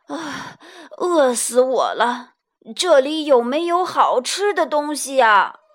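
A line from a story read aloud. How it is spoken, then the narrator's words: Panting, out of breath. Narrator (Chinese): 猪满头大汗，喘着气说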